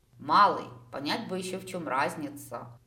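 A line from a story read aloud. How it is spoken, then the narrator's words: Sleepy sigh. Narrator (Russian): вздохнула я, окончательно просыпаясь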